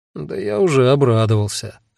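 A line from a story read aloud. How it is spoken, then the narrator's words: Gloomy. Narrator (Russian): мрачно сказал я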